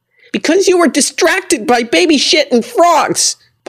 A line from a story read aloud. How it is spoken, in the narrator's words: Paula yelled